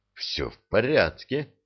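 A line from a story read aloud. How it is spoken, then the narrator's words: Quiet. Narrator (Russian): тихо проговорил Редькин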